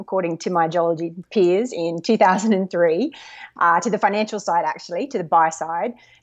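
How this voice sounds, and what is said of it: Australian accent. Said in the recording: “obviously probably by the accent everyone can tell, born and educated in Australia”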